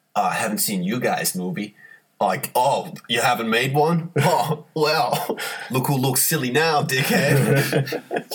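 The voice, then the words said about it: Put-on accent imitating another person. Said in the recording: “I apologize for that accent.”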